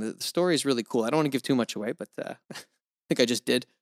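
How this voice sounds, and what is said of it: Canadian sounding more American, non-regional. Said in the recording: “Your accent sounds more American than Canadian ... a non-regional kind of accent”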